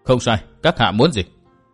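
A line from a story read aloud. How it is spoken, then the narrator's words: Cold. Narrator (Vietnamese): Tư Mã Minh lạnh lùng nói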